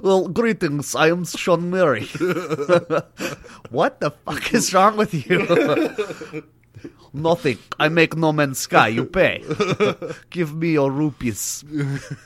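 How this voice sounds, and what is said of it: Put-on Russian accent. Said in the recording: “he like does like a Russian accent”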